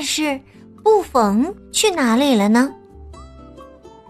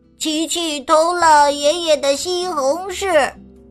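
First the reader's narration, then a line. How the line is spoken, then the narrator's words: Group laughing, repeating. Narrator (Chinese): 劳拉、二耶、拉皮诺还有图杜斯大笑的跟着他重复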